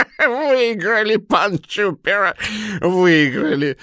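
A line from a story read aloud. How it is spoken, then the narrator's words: Said after laughing. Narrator (Russian): сказал он, отхохотавшись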